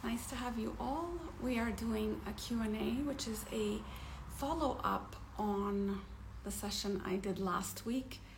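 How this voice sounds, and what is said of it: Raspy, hoarse voice. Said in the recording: “my throat is really raspy. ... I have like a infection, like sinus.”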